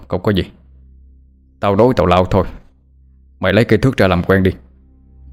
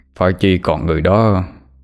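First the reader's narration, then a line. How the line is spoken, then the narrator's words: Sighing lament. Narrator (Vietnamese): Hai Đèn thở dài mà than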